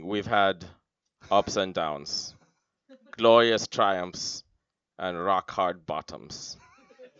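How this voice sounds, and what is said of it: Imitated Belgian accent. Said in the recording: “a Belgian accent saying ... That's my impression of Jean-Claude Van Damme”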